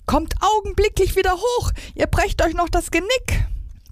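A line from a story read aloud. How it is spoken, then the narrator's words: Woman screaming. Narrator (German): schrie sie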